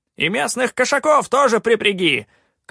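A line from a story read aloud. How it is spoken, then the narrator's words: Shout after someone. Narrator (Russian): крикнул вдогонку Калаан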